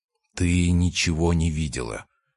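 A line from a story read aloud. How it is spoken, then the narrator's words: Quiet close whisper. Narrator (Russian): сказал тихо, в ухо, близко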